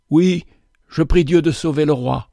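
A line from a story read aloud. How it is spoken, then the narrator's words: Firm but husky reply. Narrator (French): Mais elle répondit d'une voix ferme, quoique voilée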